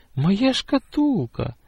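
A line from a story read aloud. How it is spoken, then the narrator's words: Sudden cry. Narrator (Russian): вскрикнула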